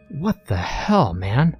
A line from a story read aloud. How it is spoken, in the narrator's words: Max exclaimed angrily as he awoke